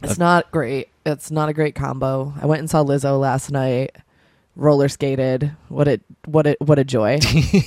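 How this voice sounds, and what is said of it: Slightly congested voice from cold. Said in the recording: “I have a little cold today. ... And I'm a little hungover.”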